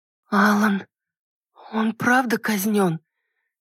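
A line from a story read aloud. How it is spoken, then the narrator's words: Hoarse voice. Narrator (Russian): Сиплым голосом промолвила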